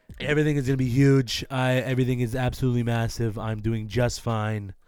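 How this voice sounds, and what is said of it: Imitates another person's voice. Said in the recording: “Dude, that's not bad. That's a pretty good impression.”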